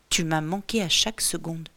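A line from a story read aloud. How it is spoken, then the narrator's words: Whispered. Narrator (French): chuchote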